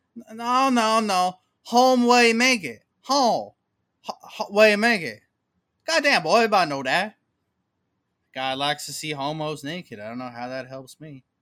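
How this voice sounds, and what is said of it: Hillbilly-style character voice. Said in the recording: “my favorite impression ... some hillbilly who talked kind of like that”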